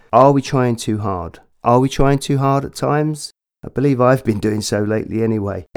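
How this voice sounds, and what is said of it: Congested voice from a cold. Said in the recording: “As you can probably hear, I've got a cold, chest issues ... apologies for the voice”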